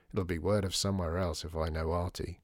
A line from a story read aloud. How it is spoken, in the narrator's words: muttered Dower